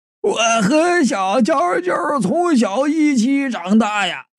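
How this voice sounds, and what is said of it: Hoarse old man's voice. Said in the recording (Chinese): “七八十岁的老头，拄着个拐杖，用嘶哑的声音说道”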